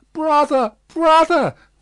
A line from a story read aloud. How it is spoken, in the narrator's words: cried Miss Pross, bursting into tears